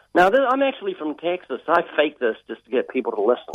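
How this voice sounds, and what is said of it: Australian accent. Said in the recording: “that down under Australian accent”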